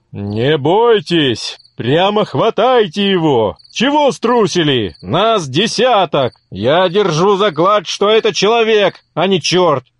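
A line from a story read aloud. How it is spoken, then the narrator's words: Shouting to companions. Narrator (Russian): Так кричал голова своим сопутникам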